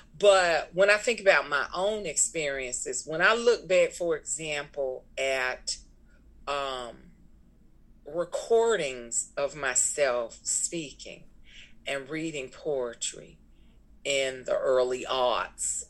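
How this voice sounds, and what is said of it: Thick accent with a drawl. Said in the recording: “I don't have this same thick accent. ... I have a bit of a drawl,”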